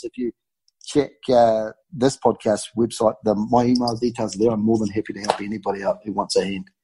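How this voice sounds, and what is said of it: Thick New Zealand accent. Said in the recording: “his thick Kiwi accent”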